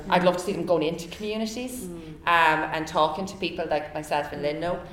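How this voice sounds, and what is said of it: Irish Limerick accent. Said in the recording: “nobody sounds like me... Nobody sounds has my accent like... you've got to knock the Limerick accent out of you”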